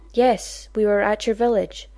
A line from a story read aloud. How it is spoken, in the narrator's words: Daniel said evenly